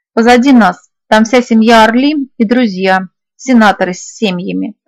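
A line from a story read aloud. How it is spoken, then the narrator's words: Snorting. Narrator (Russian): он хмыкнул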